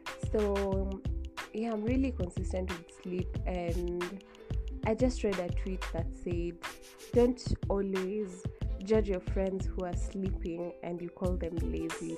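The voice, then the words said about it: Groggy just-woke-up voice. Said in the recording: “I'm just from waking up. That's why my voice sounds like that.”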